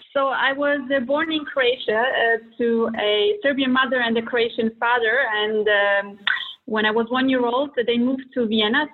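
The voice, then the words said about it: Non-native English accent. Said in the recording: “that's not an English accent, is it?”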